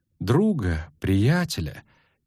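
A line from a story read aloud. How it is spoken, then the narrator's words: Quiet. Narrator (Russian): тихо сказала Фрингилья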